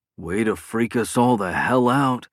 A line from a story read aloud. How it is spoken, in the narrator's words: Clark groaned in relief